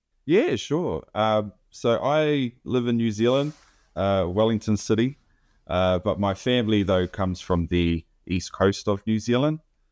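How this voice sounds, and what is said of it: New Zealand accent, east coast twang. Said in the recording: “your wonderful New Zealander voice and dialect ... the Kiwi accent ... a little bit of a east coast twang”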